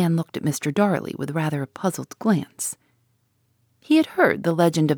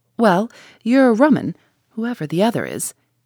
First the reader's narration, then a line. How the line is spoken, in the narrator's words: the man laughed and said